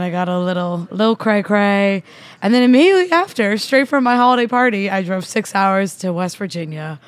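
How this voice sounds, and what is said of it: Slightly hoarse, partly lost voice. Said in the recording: “lost my voice a little bit”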